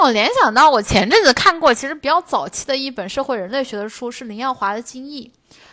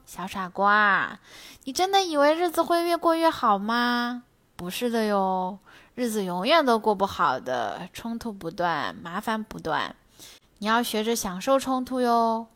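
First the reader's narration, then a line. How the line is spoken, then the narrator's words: Gentle. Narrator (Chinese): 温柔的说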